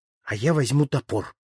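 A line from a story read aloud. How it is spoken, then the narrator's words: Plain, eldest. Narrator (Russian): сказал старший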